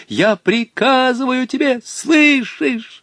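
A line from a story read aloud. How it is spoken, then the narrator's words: Pleading, desperate scream. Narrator (Russian): молил между тем Волька, он отчаянно завопил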